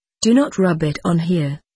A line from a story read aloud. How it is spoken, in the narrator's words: he said